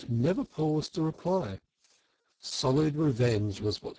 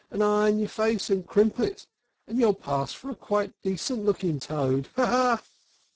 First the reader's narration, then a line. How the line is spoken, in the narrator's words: she cried out